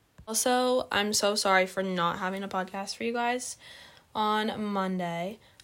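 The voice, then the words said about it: Hoarse, fading voice. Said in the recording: “losing my voice. ... the horsiness ... it definitely sounds a little different”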